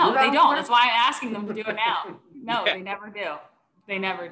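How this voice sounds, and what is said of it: Usual voice. Nothing is said of it.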